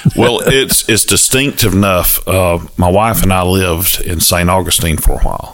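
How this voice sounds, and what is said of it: Southern US accent. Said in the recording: “Our accents, I think, are pretty similar. ... we call it more of a brogue than they say the Southern accent”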